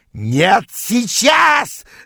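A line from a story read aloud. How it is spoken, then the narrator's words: Yelling. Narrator (Russian): завопил он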